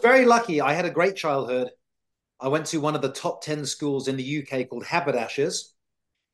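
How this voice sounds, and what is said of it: British accent. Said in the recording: “I grew up in the UK, as you can probably tell from my accent.”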